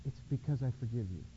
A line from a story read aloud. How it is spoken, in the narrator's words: he smiled and said quietly